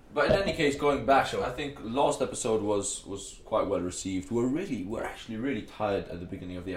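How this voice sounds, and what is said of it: Maltese accent. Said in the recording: “my Maltese accent ... you just have a really unique accent because you have... European tonalities ... You have the intonations of a mix of Arabic, Spanish, Italian”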